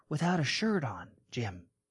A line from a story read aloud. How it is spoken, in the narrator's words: the teacher whispered